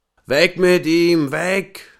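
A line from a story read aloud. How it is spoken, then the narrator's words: Group shouting. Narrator (German): schrien sie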